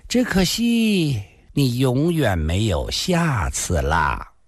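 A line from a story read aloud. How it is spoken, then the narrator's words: Sighing. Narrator (Chinese): 他叹了口气，接着说道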